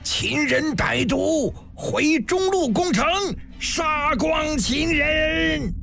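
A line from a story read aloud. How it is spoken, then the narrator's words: Wild furious roar. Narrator (Chinese): 辛元衍跳脚狂吼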